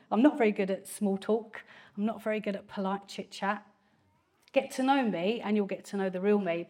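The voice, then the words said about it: Strong Essex accent. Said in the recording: “I have a very strong Essex accent sometimes”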